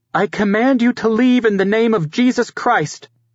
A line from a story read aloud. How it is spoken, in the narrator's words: she cried